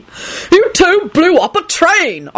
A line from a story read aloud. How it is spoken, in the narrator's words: Arthur shouted